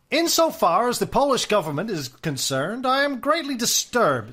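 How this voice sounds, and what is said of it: 1920s American aristocrat accent. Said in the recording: “my my 1920s American aristocrat accent. F. Scott Fitzgerald accent with a bit of Markham thrown in.”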